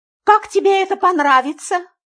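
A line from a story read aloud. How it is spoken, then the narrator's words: Aunt's indignant exclamation. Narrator (Russian): негодующе воскликнула тетя Мила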